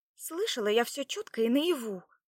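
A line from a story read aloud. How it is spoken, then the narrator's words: Indignant young woman. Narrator (Russian): возмущенно ответила девушка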